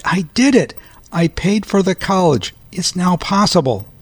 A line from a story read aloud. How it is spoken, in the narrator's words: She cried